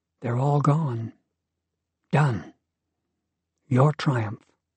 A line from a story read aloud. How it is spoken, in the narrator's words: Serafina said softly